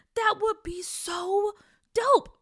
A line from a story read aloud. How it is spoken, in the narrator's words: Peach said excitedly